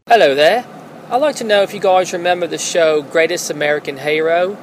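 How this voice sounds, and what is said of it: Fake British accent. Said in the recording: “my fake British accent ... I'm actually from Baltimore, Maryland”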